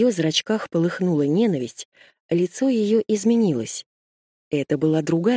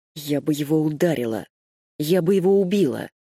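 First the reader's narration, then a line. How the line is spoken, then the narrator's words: Through gritted teeth. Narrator (Russian): сквозь зубы процедила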